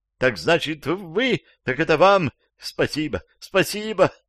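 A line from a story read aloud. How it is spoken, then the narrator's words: Shout dissolving into sobs. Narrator (Russian): крикнула вдогонку освобожденная женщина и зарыдала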